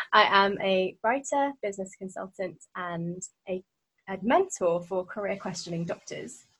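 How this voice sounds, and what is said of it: British accent. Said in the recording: “Don't you guys love that accent? ... I am from the UK, obviously.”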